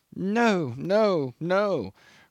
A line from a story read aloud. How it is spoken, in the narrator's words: croaked the old man without lifting his eyes, and the senile tremble of his head became almost fierce with determination